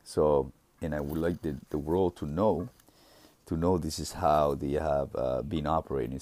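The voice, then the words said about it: Deep, congested voice. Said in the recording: “I'm starting to have like a little drippery nose again, and my throat started to have a little, as you can see, my voice is very deep.”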